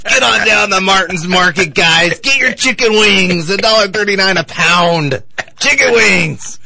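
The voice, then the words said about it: Imitates a product promoter's voice. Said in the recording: “There's no better promoter of products in the entire world than Don West ... I love the impersonation.”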